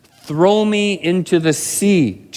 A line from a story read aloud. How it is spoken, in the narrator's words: Jonah said